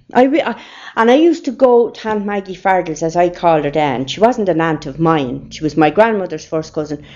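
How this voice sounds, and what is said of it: Irish rural Saggart country accent. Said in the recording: “a Saggart accent ... It's a country accent”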